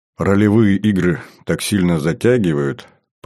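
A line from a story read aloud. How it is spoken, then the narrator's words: Penitent tone. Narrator (Russian): покаянным тоном произнес я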